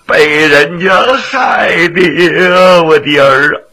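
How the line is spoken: Crying old woman. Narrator (Chinese): 老太太哭了

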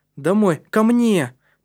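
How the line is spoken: Quick exclamation. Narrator (Russian): тут же воскликнул Матиас

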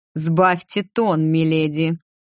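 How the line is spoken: Growling emperor. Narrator (Russian): Император же зарычал

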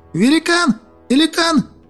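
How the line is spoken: Riders shouting. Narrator (Russian): кричали всадники

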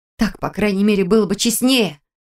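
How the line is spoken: Snapping. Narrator (Russian): огрызнулась я

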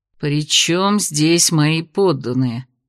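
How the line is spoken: Displeased grumble. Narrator (Russian): буркнул король, недовольный, что его сбили с позитивного настроя

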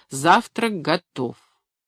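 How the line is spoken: Loud. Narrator (Russian): сказал громко

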